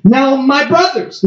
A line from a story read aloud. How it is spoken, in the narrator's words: the second man exclaimed with a cry of dawning recognition